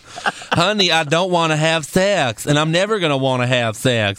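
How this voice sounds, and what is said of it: Imitates another person's voice. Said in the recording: “We now have Chrisley impersonations on this show.”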